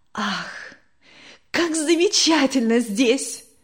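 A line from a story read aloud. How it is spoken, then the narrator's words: Exclaiming. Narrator (Russian): воскликнула Вера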